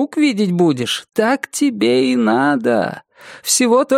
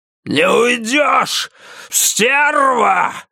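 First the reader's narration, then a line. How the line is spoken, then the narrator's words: Yelling. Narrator (Russian): вопит он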